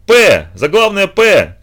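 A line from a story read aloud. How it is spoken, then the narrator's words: Shouting. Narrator (Russian): кричал он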